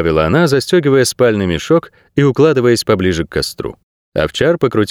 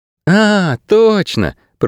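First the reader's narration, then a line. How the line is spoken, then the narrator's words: Yawning drawl. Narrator (Russian): протянула она, зевая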